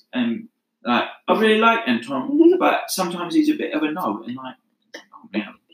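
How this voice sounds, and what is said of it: Imitated Cockney-style British accent. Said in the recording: “her dad was literally, like, a Cockney gangster in movies. And, yeah, she talked like this.”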